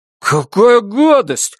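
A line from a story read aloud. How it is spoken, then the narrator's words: Exclaiming. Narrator (Russian): воскликнул Брезыч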